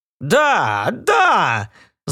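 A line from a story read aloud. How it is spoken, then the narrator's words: Shouted. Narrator (Russian): закричал он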